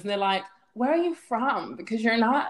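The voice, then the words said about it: Put-on American accent. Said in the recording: “I don't know why I put an American accent.”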